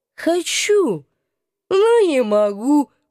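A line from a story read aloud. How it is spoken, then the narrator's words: Muffled groan. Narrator (Russian): простонал он, зажимая голову между коленей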